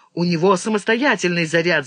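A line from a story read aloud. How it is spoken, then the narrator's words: Shouting. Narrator (Russian): закричал он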